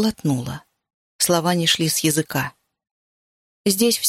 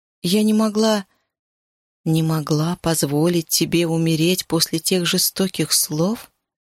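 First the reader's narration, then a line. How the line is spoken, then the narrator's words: Hoarse whisper. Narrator (Russian): я хрипло прошептала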